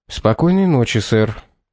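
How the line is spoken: Quiet group reply. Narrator (Russian): тихо ответили полицейские

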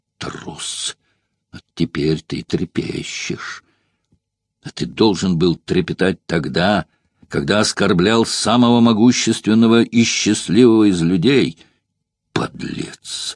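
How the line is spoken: Terrified muttering. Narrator (Russian): В ужасе бормотал Граней

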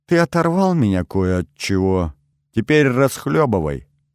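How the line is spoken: Less cheerful tone. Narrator (Russian): уже не таким веселым тоном, произнесла Ольга

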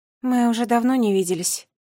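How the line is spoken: Sad sigh. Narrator (Russian): грустно вздохнула балерина

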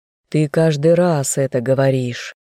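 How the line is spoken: Weary sigh. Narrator (Russian): устало вздохнул опекун

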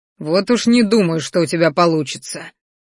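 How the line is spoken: Growl. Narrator (Russian): рыкнул

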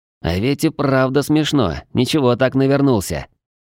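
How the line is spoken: Grumbling turning to quiet giggling. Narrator (Russian): Ворчание быстро сменилось тихим хихиканьем

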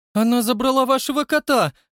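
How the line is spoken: Loud accusing shriek. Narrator (Russian): громко и обвиняюще взвизгнул Дэвид Притчет

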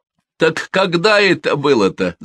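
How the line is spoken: Laughing. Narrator (Russian): засмеялся Гольдин

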